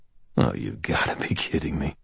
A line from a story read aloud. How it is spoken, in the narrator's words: I muttered